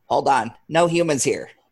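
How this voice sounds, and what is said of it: Imitates a security droid. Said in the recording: “my worst impression of these”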